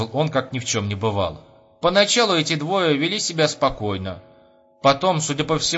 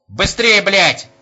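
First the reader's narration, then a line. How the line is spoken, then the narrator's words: Old man yelling. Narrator (Russian): завопил старичок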